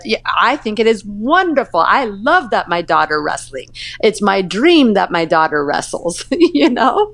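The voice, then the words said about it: Thick Iranian accent. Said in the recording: “in his thick Iranian accent”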